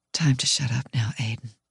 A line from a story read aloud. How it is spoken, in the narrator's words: I whisper